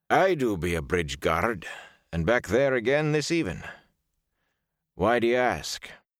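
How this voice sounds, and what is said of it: Heavy Ilioner accent. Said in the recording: “His words had a heavy Ilioner accent.”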